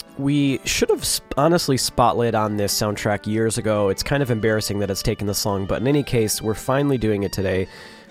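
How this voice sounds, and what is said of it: Sore-throated voice. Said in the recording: “I do have a sore throat ... I apologize for my voice.”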